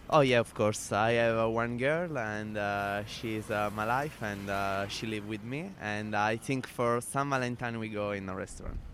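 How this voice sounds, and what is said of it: Italian accent, Sicilian. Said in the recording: “You have got the best Italian accent. ... South Italy, Sicily.”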